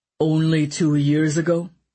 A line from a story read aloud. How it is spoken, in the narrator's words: Severin said, his voice cold